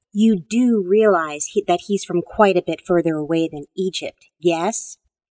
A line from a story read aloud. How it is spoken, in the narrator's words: Rachel snorted